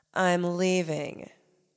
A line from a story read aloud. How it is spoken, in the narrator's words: Karen said dryly